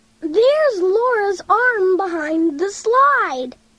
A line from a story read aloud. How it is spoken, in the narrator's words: shouted David